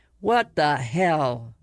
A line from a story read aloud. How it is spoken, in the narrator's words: Mayan cut him off, his voice trembling